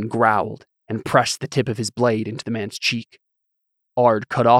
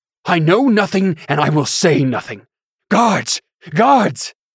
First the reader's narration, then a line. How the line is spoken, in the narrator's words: shouted, the veins in his neck beginning to pop